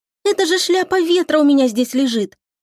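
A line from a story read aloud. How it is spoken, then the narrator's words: Sigh. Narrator (Russian): И вздохнула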